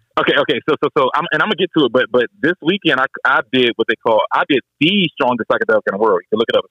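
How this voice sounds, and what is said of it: DC-area (DMV) accent. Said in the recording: “You know you got your DMV accent. So enunciate it.”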